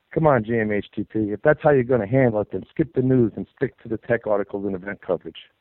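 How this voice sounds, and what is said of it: Tough New York accent. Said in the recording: “you sound just like Frank Rizzo from the Jerky Boys... Love that New York accent... it just sounds tough”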